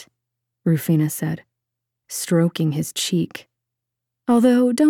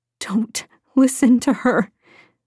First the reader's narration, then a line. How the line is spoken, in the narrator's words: Lydia pleaded